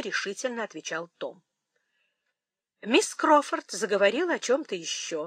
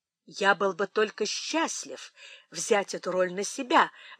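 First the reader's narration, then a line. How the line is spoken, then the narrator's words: Exclamation. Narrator (Russian): воскликнул Том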